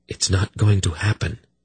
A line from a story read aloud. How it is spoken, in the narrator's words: he told her in a firm, quiet voice